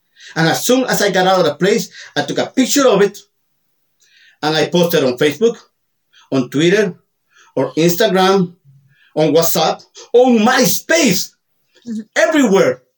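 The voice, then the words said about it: Latino accent. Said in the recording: “this sexy Latino accent”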